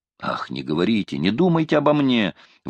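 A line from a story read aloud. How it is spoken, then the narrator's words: Exclaimed. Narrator (Russian): воскликнул Квентин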